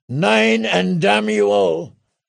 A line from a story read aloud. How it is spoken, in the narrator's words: Grimtongue shouted